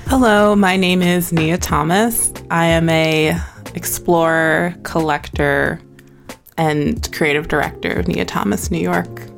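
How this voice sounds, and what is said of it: Podcast-style speaking voice. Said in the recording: “you got a podcast voice”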